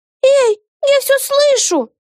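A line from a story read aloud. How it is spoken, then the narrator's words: Shrill squeal. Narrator (Russian): взвизгнула Вега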